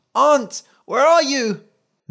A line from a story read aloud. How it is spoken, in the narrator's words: The boy panicked and cried